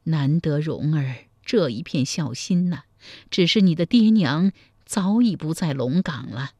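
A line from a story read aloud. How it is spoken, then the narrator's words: With a long sigh. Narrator (Chinese): 柴姨娘长叹一声说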